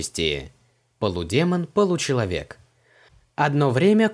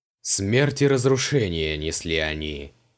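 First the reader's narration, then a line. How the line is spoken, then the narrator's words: Gloomy. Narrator (Russian): мрачно закончил рассказ Криол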